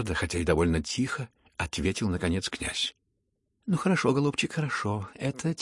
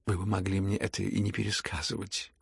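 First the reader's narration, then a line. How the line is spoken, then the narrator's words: Reproachful near-whisper. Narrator (Russian): укоризненно, чуть не шепотом заметил князь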